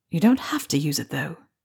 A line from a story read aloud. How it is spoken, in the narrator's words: Remus reminded him softly